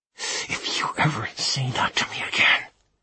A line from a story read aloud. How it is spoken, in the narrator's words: he hissed